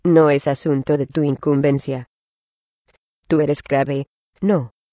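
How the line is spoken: Cold reply. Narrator (Spanish): contestó fríamente

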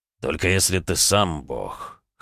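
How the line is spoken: Wry snort. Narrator (Russian): хмыкнул

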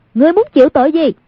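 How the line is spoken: Shout. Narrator (Vietnamese): quát lên

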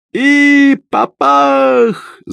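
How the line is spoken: Yelling. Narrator (Russian): завопил Кристиан

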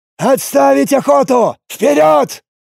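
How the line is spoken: Shouted over intercom. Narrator (Russian): выкрикнул Лист по общей связи

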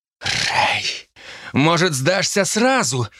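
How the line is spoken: Distant shout. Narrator (Russian): выкрикнула Джо издали, из-за стены вихрей и черного тумана

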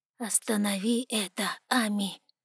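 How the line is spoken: Whisper. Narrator (Russian): прошептал он

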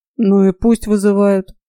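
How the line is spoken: Gruff mutter. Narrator (Russian): буркнул Фрей

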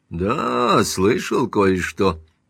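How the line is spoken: Muttered. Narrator (Russian): пробормотал Симмонс

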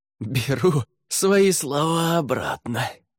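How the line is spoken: Hoarse rasp. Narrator (Russian): прохрипела Фэй

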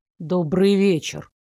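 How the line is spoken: Deeply gloomy tone. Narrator (Russian): произнес Элмер таким мрачным тоном, будто наступил последний вечер его жизни и вообще всего мира

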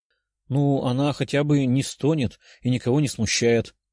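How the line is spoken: Sweet purring voice. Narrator (Russian): милым голоском промурлыкала Катя

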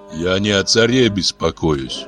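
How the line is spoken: Gloomy. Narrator (Russian): мрачно продолжал Георгий

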